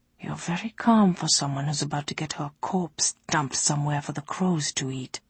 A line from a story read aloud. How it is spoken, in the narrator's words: whispered Chenaol